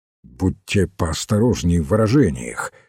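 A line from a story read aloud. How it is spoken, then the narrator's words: Angry. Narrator (Russian): сердито сказал Ройс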